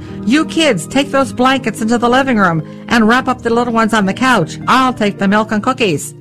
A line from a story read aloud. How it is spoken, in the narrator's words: my mother shouted